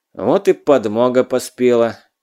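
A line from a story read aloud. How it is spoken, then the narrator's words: Loud mutter. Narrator (Russian): громко буркнул себе под нос Задов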